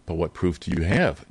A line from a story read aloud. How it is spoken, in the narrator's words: Drake said blandly